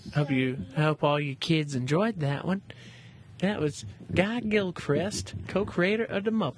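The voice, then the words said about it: Impression of a co-host's voice. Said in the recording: “Are you trying to do an impression? ... I am trying to do an impression of you, Gabriel.”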